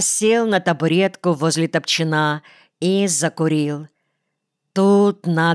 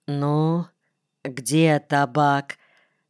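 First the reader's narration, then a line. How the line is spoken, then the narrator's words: Very quiet question. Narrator (Russian): спросил Дубов очень тихо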